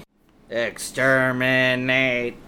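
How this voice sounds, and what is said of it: Bad Dalek robot voice impression. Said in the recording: “worst Dalek impression I've ever heard, ever”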